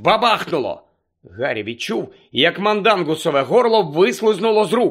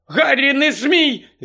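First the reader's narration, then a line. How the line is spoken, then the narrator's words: Shout. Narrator (Ukrainian): закричала Герміона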